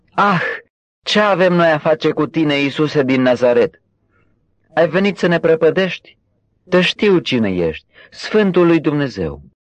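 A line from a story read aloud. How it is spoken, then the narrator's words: Possessed man shouting loudly. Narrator (Romanian): un om care avea un duh de drac necurat și care a strigat cu glas tare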